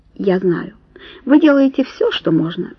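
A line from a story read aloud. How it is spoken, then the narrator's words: Ingratiating. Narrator (Russian): вкрадчиво начал он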